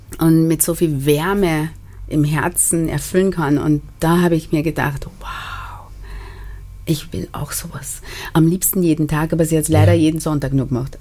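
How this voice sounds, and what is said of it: Slight Austrian German accent. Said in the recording (German): “Da hört man auch ein bisschen den österreichischen Dialekt raus. Das Karibische ist ja so gar nicht mehr da.”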